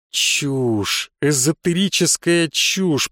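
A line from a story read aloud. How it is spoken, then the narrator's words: Muttered. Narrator (Russian): пробормотал я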